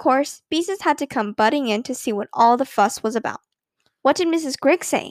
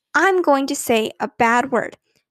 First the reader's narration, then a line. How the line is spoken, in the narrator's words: she shouted with a stamping of her foot